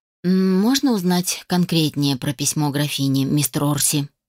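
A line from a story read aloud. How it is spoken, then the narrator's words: Said very quietly. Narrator (Russian): Пристав произнес очень тихо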